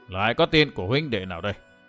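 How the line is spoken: Old man muttering. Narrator (Vietnamese): Lão già lẩm bẩm

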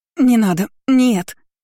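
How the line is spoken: Panicked shriek. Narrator (Russian): взвизгнула императрица

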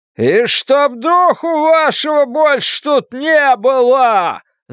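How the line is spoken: Shouting after someone. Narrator (Russian): заорал мне вслед

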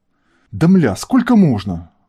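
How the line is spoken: Exclaiming. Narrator (Russian): воскликнула Анна

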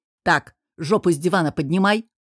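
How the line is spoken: Growled command after pause. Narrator (Russian): помолчав, скомандовал друг и прорычал

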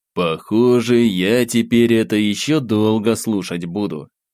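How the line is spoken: Mock-resigned tone. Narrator (Russian): деланно обреченным тоном бросил товарищ

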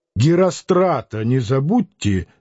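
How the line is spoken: Angry. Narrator (Russian): сердито сказал Самгин

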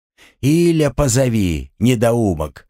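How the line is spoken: Rude woman. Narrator (Russian): грубо произнесла она

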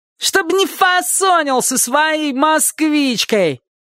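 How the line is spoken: Boy shouting after someone. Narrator (Russian): крикнул вслед один из ребят

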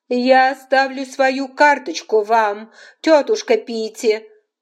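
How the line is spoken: Shouted. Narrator (Russian): прокричала

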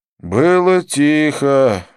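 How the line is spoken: Breathy, smiling. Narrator (Russian): выдохнул Деннис, не прекращая улыбаться мне

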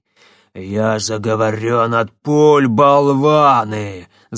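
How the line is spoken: Gloating growl of a brute. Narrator (Russian): злорадно прорычал амбал

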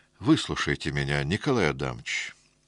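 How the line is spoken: Calm reply. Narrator (Russian): спокойно ответил

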